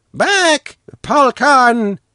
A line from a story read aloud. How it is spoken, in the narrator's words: the watchman shouted